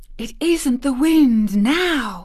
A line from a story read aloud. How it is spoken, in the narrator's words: said in a loud whisper